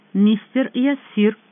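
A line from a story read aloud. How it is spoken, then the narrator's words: Formal tone. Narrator (Russian): официальным тоном отозвалась Джордана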